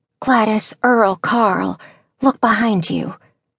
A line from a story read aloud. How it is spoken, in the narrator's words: Maggie whispered excitedly